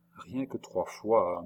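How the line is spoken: Murmured. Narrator (French): murmura André

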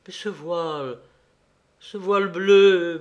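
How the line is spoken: Stammer. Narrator (French): bégaya Patrice

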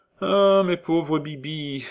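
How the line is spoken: Sighing colonel. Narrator (French): soupira le colonel

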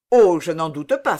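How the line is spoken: Brisk exclamation. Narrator (French): s'écria vivement Colbert

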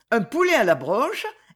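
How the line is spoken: Laughing exclamation. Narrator (French): exclama-t-elle en riant

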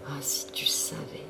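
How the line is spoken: Soft whisper. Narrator (French): souffla-t-elle doucement à son oreille

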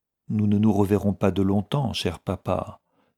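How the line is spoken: Barely audible. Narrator (French): dit-elle d'un ton à peine assez élevé pour que Dunbar l'entendît

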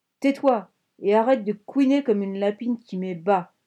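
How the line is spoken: Growling. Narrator (French): grogna la Shazam

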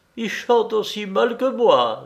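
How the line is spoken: Said laughing. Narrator (French): disait-il en riant

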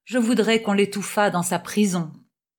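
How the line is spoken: Grumbling old sailor. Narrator (French): grommela le loup de mer

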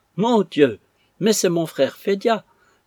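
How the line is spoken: Exclaiming. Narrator (French): s'écria maman

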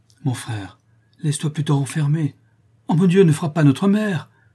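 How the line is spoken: Terrified cry. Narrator (French): s'écria Amandine épouvantée

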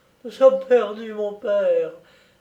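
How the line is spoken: Moaning. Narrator (French): gémit mademoiselle de Plaouy

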